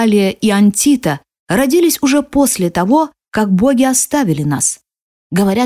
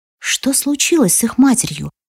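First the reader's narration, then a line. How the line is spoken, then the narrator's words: Tearful choked whisper. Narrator (Russian): прошептала я, понимая, что меня душат слезы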